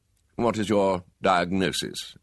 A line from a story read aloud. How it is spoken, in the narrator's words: demanded coldly